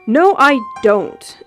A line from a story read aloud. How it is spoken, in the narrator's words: he said loudly